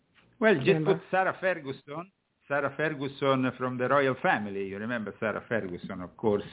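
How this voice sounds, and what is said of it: Italian accent. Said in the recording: “That Italian accent.”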